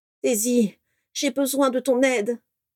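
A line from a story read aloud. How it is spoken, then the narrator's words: Moaning. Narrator (French): gémit Narcissa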